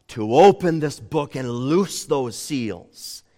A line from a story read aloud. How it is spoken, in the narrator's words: says the strong angel, as it were in a booming voice